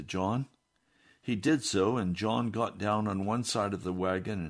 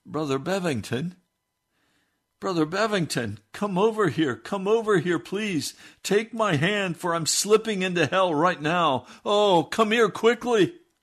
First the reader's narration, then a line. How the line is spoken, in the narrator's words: he called out